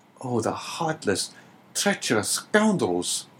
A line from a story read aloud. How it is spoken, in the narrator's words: exclaimed Dante